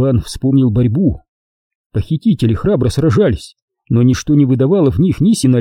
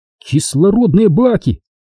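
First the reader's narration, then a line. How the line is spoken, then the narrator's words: Exclaimed. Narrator (Russian): воскликнул он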